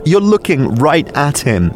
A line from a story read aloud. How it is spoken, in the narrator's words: gasped